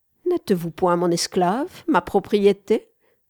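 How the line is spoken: Plain. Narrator (French): répondit Wanda

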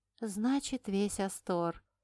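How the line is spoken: Muttering. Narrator (Russian): пробормотала

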